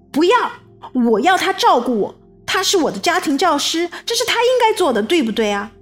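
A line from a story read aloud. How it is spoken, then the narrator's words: Loud. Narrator (Chinese): 艾文就大声地说道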